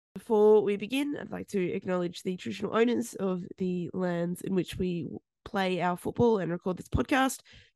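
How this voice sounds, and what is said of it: Sick, unwell-sounding voice. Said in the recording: “I am a little bit sick at the moment, as you can hear from my voice”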